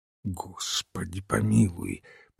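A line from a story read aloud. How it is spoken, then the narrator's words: Whispered. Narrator (Russian): прошептал Олбоин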